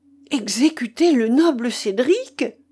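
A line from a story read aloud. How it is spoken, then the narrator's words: Exclaimed. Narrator (French): s'écria Wamba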